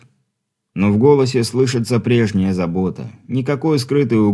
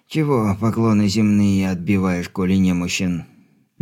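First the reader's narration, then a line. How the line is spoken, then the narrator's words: Displeased creaky old man. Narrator (Russian): недовольно проскрипел дедок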